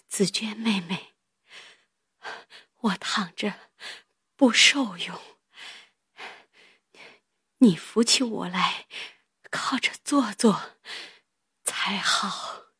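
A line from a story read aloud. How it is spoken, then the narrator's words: Breathless speech. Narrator (Chinese): 黛玉又一面喘一面说道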